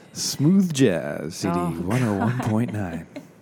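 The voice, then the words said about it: Smooth radio announcer voice. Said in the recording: “this is my podcast voice ... This is your podcast voice? ... We're going to do all in podcast voice”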